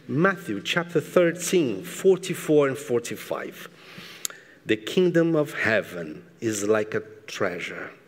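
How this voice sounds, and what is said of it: Speaks with a noticeable accent. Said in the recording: “with my beautiful accent”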